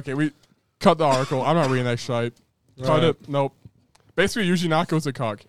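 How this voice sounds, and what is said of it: Strained, failing voice. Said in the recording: “My voice is dying as well.”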